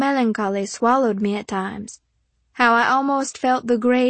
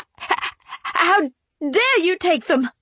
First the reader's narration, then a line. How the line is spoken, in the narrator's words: I shrieked